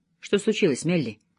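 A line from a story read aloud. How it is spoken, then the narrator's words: Tender question. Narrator (Russian): ласково спросил он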